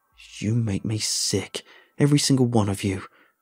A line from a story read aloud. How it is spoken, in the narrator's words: I spat out, now free to finally unleash the wrath that had been building up for so long